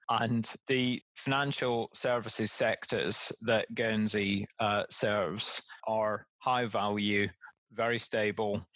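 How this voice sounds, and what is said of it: Non-local accent. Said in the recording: “from his accent, very obviously was not born here”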